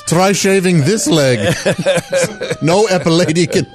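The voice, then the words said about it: Put-on accent. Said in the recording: “Why am I even trying this accent?”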